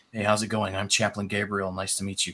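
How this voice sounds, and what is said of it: Soft-spoken Californian accent like Keanu Reeves. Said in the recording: “your American accent? ... a very straight Californian accent, but kind of more like a Keanu Reeves. So he would have been more softly spoken ... Really good.”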